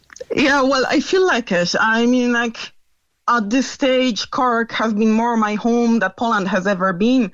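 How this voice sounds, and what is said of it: Slight foreign accent. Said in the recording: “You just a bit an accent.”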